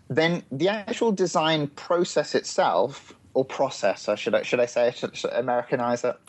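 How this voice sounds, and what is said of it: English accent. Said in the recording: “how wonderful your accent is ... I'll keep with the English accent.”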